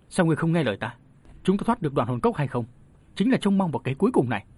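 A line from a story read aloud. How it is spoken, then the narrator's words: Sharp, impatient old man. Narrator (Vietnamese): lão gắt giọng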